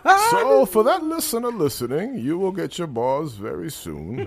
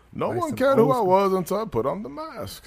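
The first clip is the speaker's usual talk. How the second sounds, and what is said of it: Bane movie-villain voice. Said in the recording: “bars in a Bane voice”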